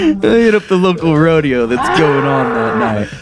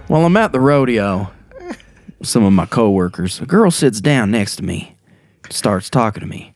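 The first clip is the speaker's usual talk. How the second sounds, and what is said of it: Put-on Southern US accent. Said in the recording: “talking in a southern accent”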